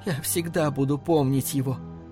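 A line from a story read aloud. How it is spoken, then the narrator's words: Tearful. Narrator (Russian): сказала она сквозь слезы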